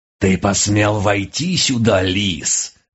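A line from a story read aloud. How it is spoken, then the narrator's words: Menacing snarl. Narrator (Russian): грозно скалила пасть черная пантера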